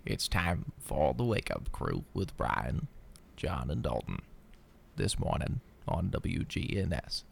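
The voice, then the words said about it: Morgan Freeman impression. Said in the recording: “Or I could do Morgan Freeman.”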